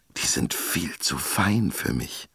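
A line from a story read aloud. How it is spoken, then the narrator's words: Whispered. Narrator (German): flüsterte sie schließlich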